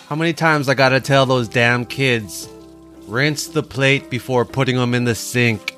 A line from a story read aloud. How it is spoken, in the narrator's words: she grumbled to herself